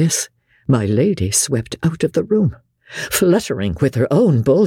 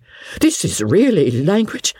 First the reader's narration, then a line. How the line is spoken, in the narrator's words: cried Sir Pitt